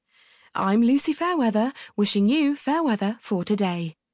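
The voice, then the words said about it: Polished radio presenter voice. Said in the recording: “I put on my radio voice to do my trademark sign-off”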